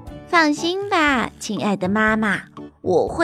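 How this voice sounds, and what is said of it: Usual voice. Nothing is said of it.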